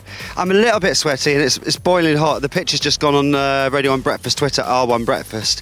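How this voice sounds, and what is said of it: Out of breath. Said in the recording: “sorry if I sound a bit out of breath, but I have just climbed Murray's Mound ... I could hear that you are officially on the mound now.”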